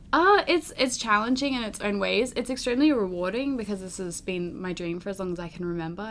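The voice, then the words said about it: Noticeable foreign accent. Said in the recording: “You have a wonderful accent.”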